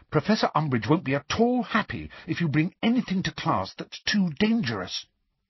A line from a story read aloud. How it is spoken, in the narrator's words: said Hermione urgently